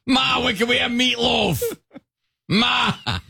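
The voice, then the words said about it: Put-on Boston accent. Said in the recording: “he has a Boston accent”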